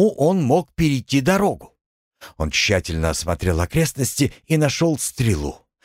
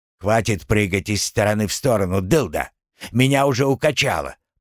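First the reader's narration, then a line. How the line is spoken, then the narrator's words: Grumbling. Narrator (Russian): проворчал он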